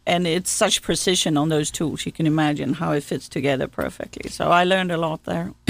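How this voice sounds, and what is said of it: Speaks with a noticeable accent. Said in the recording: “whose accent that is you're listening to this morning”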